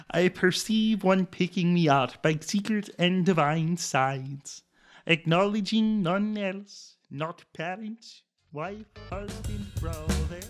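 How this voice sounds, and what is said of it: Put-on German accent. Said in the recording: “in my German accent ... this is in German.”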